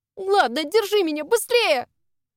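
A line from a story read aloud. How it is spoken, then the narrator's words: Alarmed cry, about to fall. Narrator (Russian): Вскрикнула, понимая, что еще немного, и точно рухну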